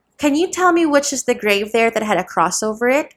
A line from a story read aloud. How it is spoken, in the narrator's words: asked the servant